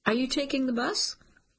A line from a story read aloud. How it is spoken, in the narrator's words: Caitlin sighs